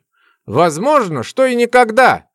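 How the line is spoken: Young man scoffing. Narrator (Russian): хмыкнул безусый парень

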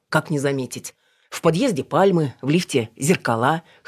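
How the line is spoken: Snorting. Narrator (Russian): хмыкнул Пашкин

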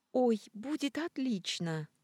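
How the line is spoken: Exclamation, female. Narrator (Russian): воскликнула Мими

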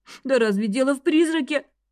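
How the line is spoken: Sobbing. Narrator (Russian): всхлипнула Эви

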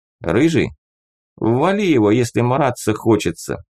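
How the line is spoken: Calm remark. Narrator (Russian): спокойно заметил командир

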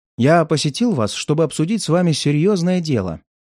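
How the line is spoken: Plain. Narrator (Russian): сказал я

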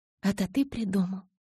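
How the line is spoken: Hoarse, strained loud question. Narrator (Russian): хрипло спросила Белла, стараясь говорить как можно громче, чтобы я услышал

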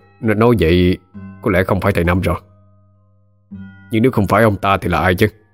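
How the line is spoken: Muttering. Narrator (Vietnamese): Kính mới lẩm bẩm

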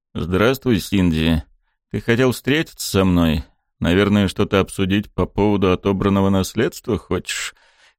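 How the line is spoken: Calm, usual voice. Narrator (Russian): Своим привычным спокойным голосом поинтересовался Сайшера

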